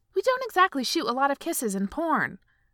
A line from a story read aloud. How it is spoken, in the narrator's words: he snapped